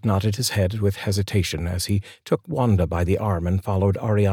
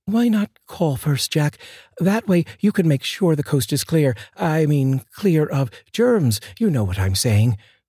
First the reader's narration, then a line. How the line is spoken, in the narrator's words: Arianna said nervously